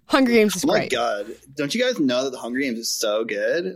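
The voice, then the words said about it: Imitates another person's voice. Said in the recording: “That's my Amal impression”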